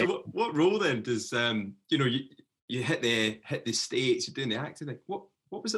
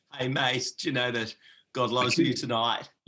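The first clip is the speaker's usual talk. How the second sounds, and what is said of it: Put-on Australian accent. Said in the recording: “that Australian accent”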